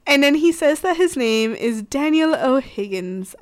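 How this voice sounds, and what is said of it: Put-on British accent. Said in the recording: “I said that with a British accent, because he's Irish... I can't do an Irish accent”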